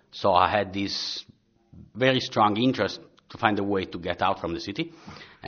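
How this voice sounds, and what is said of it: Italian accent. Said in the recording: “as you can see, pick up from my accent, I'm Italian”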